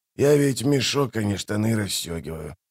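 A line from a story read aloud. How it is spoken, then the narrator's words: Merchant muttering. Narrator (Russian): пробормотал торговец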